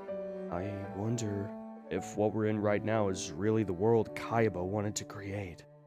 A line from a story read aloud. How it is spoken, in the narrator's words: I muttered